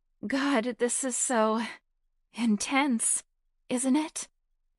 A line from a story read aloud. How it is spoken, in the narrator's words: Beth gasped